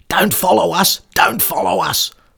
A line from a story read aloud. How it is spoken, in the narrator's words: Dave and Jim kept shouting back